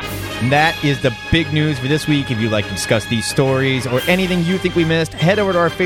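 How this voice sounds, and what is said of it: Usual voice. Nothing is said of it.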